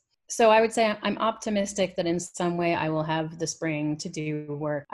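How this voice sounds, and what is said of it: American accent. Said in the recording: “you don't have a British accent ... I quickly picked up an American one”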